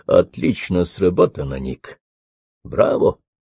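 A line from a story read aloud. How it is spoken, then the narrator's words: Quiet, lightly smiling. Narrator (Russian): легкой улыбкой негромко проговорил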